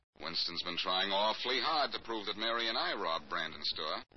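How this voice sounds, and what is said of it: Usual voice. Nothing is said of it.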